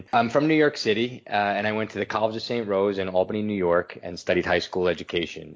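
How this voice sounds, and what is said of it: New York accent. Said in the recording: “That's the accent. I can hear it.”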